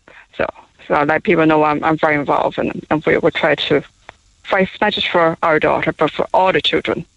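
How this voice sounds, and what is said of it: Taiwanese-accented English. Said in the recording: “What, what is the accent? ... we're from Taiwan. Oh, I'm from Taiwan.”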